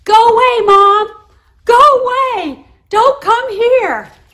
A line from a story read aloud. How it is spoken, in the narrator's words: my children started shouting